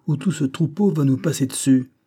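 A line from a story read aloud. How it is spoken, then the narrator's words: Urgent exclamation. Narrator (French): s'écria Banks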